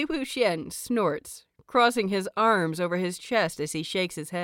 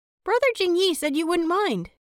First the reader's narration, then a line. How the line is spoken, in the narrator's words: Lan Qin chirps